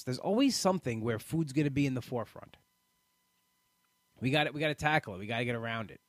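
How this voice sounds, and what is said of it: New York accent. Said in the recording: “I moved away from New York a year and a half ago, and your voice sounds like home. ... People tell me all the time I have the accent.”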